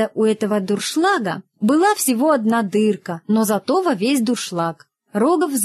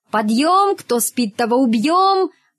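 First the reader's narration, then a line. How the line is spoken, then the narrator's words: Shout. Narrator (Russian): крикнул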